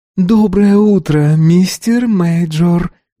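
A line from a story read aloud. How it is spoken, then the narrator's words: Singsong. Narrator (Russian): нараспев ответила она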